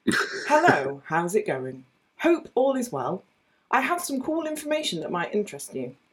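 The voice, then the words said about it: Put-on reading voice. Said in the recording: “I'll move my mic a little bit so that I can do my reading voice.”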